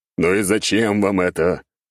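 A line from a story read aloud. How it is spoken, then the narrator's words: Grumbling. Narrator (Russian): проворчал я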